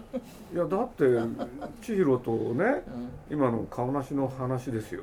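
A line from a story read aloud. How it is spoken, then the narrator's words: Plain. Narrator (Japanese): って言ったら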